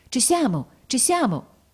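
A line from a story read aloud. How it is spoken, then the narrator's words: Exclaiming. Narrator (Italian): la levatrice esclamava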